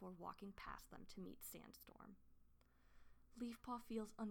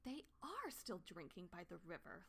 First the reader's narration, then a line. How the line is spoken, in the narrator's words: Leafpaw exclaimed